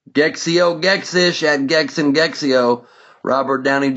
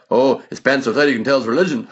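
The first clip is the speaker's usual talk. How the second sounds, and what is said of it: Imitates another person's voice. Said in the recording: “I'm too tired to do a perfect Robin Williams impression, but hopefully you get the idea.”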